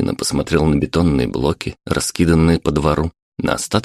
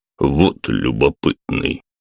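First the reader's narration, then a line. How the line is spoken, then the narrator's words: Displeased grumbling. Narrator (Russian): проворчал пес, выражая полное недовольство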